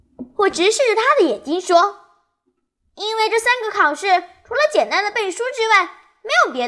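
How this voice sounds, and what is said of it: Usual voice. Nothing is said of it.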